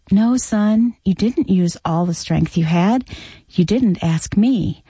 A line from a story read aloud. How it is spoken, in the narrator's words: The father corrected kindly